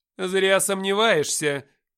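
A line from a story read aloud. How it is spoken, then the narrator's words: Commanding voice. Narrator (Russian): властным голосом заявила Даша Габриэль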